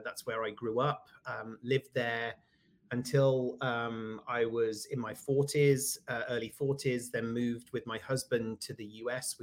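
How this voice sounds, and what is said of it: British accent. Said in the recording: “you can probably hear from my accent that I am from the UK”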